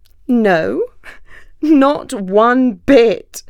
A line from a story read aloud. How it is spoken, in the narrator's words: laughed the fox